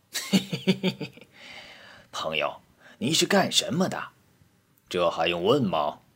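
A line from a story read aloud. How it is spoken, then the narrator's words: Sly, sinister laugh. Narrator (Chinese): 老泥鳅奸笑道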